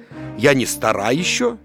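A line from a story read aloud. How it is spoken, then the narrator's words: Plain. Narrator (Russian): сказала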